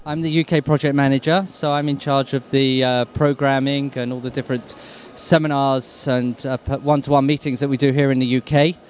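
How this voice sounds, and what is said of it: English accent. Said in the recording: “originally you were from England, obviously... You can tell by the accent?... Just about, yeah.”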